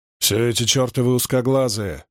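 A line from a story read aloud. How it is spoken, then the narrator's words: Growling. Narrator (Russian): зарычал Хьюэлл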